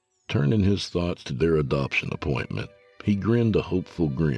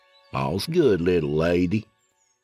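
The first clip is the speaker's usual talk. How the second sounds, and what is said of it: Exaggerated drawling Southern twang. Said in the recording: “drawled in a terrible southern twang”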